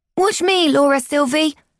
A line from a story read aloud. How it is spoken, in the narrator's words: Edwin shouted